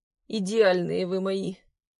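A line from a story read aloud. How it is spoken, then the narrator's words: Hoarse wheeze in pain. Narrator (Russian): прохрипел Глеб, хватаясь за бок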